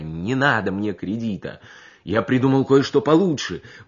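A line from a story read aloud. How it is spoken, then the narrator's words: Breathed out. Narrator (Russian): выдохнул он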